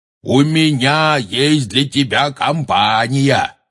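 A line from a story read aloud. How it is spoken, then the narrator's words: Shouting. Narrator (Russian): крикнул Хагрид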